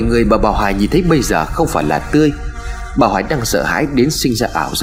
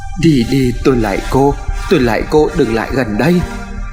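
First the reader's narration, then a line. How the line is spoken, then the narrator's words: Fearful pleading. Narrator (Vietnamese): bà Hoài cầu xin trong sợ hãi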